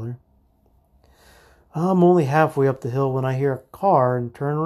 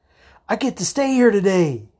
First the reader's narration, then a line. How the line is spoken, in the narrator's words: yells